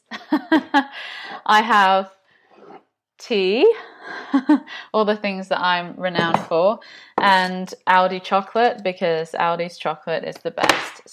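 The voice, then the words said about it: English accent from Nottinghamshire. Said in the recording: “I've got an accent, and my accent is English. So I'm originally from the UK, Nottinghamshire.”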